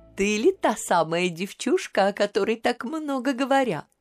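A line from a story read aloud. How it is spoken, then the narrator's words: Queen cooing. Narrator (Russian): проворковала королева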